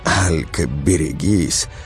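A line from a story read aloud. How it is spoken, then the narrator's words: Shrieked. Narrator (Russian): подруга взвизгнула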